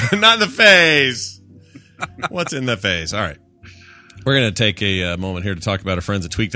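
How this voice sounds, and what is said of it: Usual voice. Nothing is said of it.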